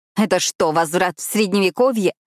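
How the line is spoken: Growled. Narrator (Russian): прорычала я

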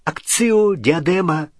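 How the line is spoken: Desperate exclamation. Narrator (Russian): в отчаянии воскликнула Гермиона

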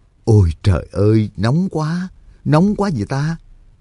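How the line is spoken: Low muttering. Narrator (Vietnamese): thấp giọng lầm bầm

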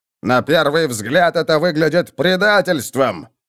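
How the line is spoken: Roaring. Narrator (Russian): взревел фон Гелдрехт

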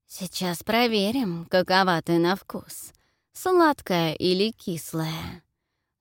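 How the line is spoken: Vile booming hiss. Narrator (Russian): шипит мерзким гулким голосом

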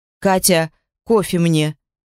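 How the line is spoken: Barked into intercom. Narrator (Russian): гаркнул в коммутатор

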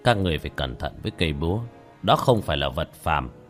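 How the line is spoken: Old man, sighing slowly. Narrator (Vietnamese): Lão khẽ thở dài chậm rãi

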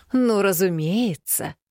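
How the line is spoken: Drawling with open irony. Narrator (Russian): Не скрывая иронии, протянула я

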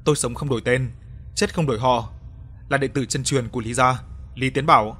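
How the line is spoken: Hearty laughing reply. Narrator (Vietnamese): Anh ta cười lớn, hào sảng đáp

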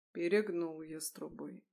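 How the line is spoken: Muffled dull voice. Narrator (Russian): глухо сказал

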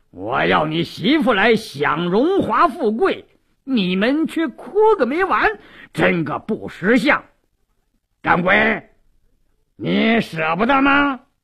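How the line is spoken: Cold sneer. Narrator (Chinese): 鲁斋郎冷笑一声

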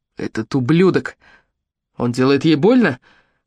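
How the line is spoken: Hoarse question. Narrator (Russian): хриплым голосом спросил он Мэтью

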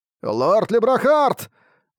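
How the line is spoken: Shouted. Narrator (Russian): закричал Нуэйн

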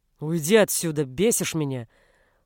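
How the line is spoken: Growled. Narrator (Russian): рыкнул Бруно

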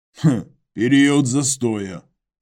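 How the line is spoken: Grunting clarification. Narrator (Russian): хмыкнул и уточнил Иваныч

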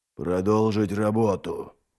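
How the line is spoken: Growled. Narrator (Russian): прорычал Трик

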